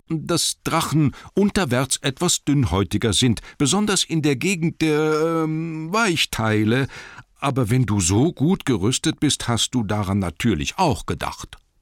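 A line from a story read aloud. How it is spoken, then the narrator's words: Fearful squeaky voice. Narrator (German): sagte Bilbo mit furchtsamer Piepsstimme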